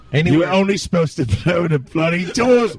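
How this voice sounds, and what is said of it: Put-on English accent. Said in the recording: “it's one of those like monkeys from the 70s that has an English accent.”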